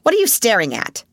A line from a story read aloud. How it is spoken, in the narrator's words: demanded Miss Minchin sharply